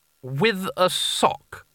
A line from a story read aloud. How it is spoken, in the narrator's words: said Coin